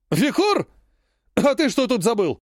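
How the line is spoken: Exclaiming. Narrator (Russian): воскликнул Адриан

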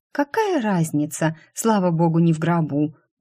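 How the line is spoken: Hoarse voice. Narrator (Russian): произнесла я охрипшим голосом

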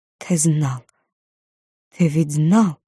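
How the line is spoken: Mouthed whisper. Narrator (Russian): одними губами прошептала

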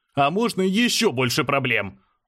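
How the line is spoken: Shouting. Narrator (Russian): выкрикнул я

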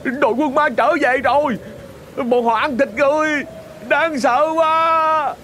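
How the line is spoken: Frightened scream. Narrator (Vietnamese): Họ sợ hãi, có người còn hét lên

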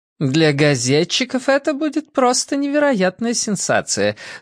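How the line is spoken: Cheerful announcement, then laughter. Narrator (Russian): сообщила миссис Бейкер и весело рассмеялась

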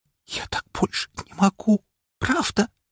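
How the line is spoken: Tearful whisper. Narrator (Russian): прошептала она, а по ее щекам потекли крошечные бусины слез

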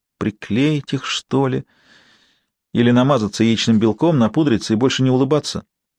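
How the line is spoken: Sad musing aloud. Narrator (Russian): грустно размышляя вслух

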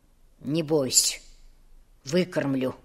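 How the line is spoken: Quiet promise. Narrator (Russian): Негромко пообещал Федор

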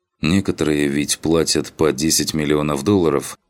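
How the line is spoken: Calm objection. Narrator (Russian): спокойно возразил Марио

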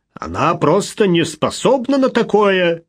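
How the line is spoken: Angry reply. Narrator (Russian): сердито ответил Малкольм

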